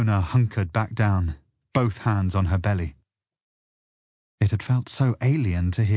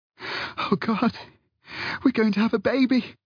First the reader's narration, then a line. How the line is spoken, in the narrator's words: panted Fiona